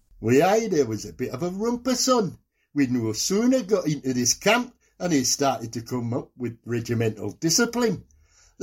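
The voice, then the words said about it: Geordie accent. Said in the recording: “He's a Geordie. Out and out Geordie. Now, you've always prided yourself on your Geordie accent, so let's hear it.”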